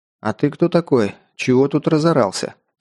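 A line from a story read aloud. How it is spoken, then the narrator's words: Calm question. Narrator (Russian): спросил спокойно я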